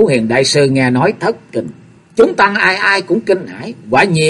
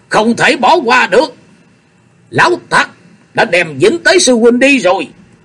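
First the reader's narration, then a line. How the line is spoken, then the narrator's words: Angry shout. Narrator (Vietnamese): một giọng nói giận dữ quát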